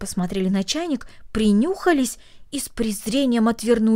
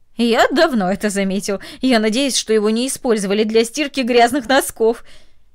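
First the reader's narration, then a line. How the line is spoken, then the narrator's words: Laughing man. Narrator (Russian): Ее сосед засмеялся и сказал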